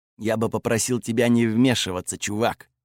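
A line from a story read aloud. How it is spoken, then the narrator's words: Grumbled. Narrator (Russian): буркнул он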